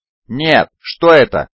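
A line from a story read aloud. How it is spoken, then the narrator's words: Shouted. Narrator (Russian): выкрикнул Кай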